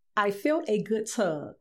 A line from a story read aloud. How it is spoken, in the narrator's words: she says